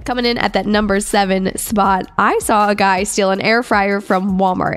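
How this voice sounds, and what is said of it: Stuffy, congested sick voice. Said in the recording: “I may sound a little bit different this weekend because I actually came down with the flu ... I sound a little different, I'm stuffy ... I'm just a little sick”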